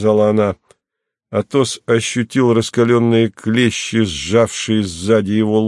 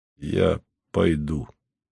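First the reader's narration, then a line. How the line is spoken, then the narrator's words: Weary. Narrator (Russian): сказал Атос устало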